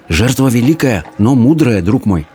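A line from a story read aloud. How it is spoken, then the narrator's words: Whispered. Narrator (Russian): прошептал Абдулла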